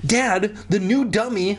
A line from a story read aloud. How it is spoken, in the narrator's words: cried, still rubbing my aching jaw